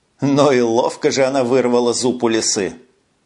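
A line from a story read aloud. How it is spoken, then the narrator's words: Laughing remark. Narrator (Russian): хохотнул Льюб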